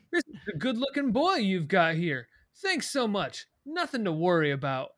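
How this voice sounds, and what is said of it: Charming, friendly cop voice. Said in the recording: “And he's like smiling, very charming... he's literally doing an impression of a cop”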